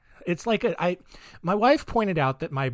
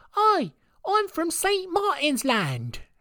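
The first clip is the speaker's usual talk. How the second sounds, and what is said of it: Put-on British accent sounding Australian. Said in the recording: “my British accent is just my Australian accent”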